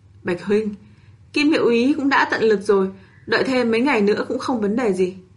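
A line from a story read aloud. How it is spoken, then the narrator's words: Sighing. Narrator (Vietnamese): Triển Chiêu thở dài nói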